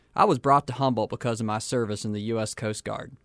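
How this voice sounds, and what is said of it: Texan accent. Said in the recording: “you could probably tell from my accent anyhow, that I'm not from around here. I was raised in Texas.”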